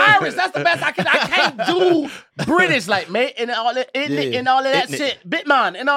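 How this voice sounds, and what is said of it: Usual voice. Nothing is said of it.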